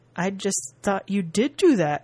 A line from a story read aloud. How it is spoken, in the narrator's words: he said solemnly